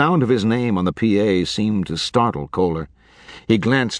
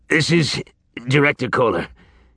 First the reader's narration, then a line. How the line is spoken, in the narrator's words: he said, wheezing